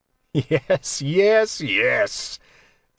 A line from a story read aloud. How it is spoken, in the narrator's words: Tensor laughed